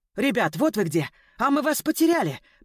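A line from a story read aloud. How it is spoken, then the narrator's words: Breathless woman shouting. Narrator (Russian): прокричала запыхавшаяся Олеся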